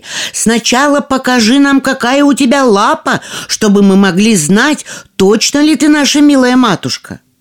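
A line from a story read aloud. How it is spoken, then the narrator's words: Young kids shouting. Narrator (Russian): Козляточки закричали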